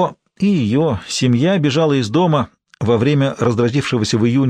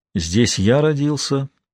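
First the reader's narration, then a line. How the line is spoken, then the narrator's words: Father speaking. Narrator (Russian): произнес отец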